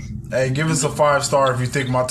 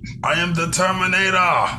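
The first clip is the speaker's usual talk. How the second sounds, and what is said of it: Bad Terminator accent impression. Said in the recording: “my Terminator accent is terrible”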